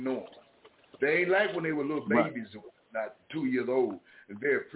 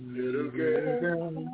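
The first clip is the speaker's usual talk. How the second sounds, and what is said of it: Sung in high falsetto. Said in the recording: “That's a falsetto. That's not my voice. That's a falsetto.”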